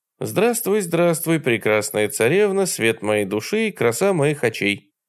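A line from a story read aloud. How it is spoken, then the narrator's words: Indifferent sing-song. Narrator (Russian): Совершенно равнодушным голосом, улыбаясь изо всех сил, пропел новообращенный гражданин бессмертный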